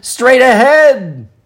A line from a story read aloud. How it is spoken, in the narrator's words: the frogs cried out excitedly